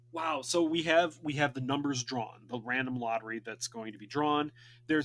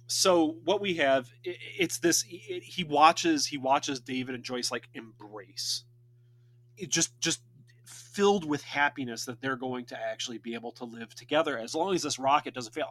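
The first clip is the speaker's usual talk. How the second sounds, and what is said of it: Choked-up, emotional voice. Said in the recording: “I'm getting choked up again.”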